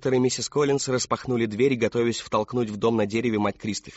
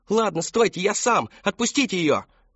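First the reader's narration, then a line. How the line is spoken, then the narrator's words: Shouting. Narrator (Russian): прокричал Кристофер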